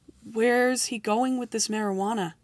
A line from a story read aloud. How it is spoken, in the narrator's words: I asked Rico quietly